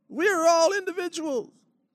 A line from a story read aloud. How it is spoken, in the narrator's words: the crowd shouts back